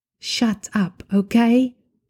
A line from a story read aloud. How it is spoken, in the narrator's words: whispers